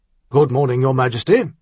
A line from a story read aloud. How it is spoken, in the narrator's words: the captain said